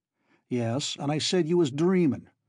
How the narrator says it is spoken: snapped his superior

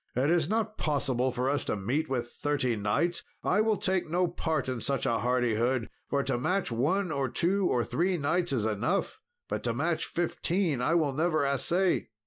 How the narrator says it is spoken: Sir Dinadan cried out

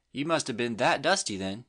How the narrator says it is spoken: she exclaimed scornfully

